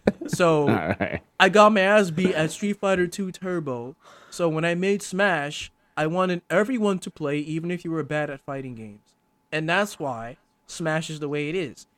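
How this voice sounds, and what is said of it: Impression of Sakurai's live translator. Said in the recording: “that's the impression of the live translator. You know, when he talks like this.”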